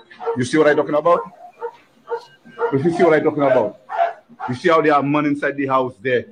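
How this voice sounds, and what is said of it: Caribbean-sounding accent. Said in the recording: “you're going to hear an accent. I can't tell where the accent is, but I think they're somewhere in the Caribbeans.”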